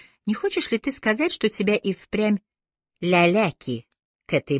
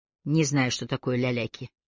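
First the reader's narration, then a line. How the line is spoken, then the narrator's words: Dry. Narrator (Russian): сухо сказал Аллейн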